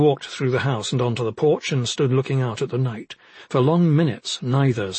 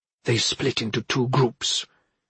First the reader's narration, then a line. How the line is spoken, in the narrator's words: whispered